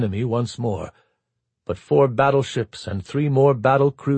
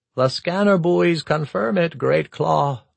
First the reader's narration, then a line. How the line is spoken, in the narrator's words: Least Claw Darsal said wearily